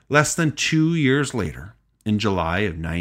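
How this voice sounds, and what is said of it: Usual voice. Nothing is said of it.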